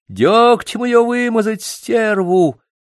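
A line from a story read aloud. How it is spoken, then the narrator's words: Shrill old woman yelling. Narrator (Russian): визгливый старушечий голос заорал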